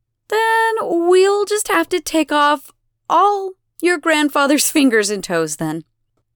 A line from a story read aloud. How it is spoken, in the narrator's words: Elena sighs, helpless